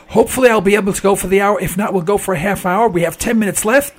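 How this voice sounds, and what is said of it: Hoarse, fading sick voice. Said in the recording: “I'm coming down with something and I'm losing my voice.”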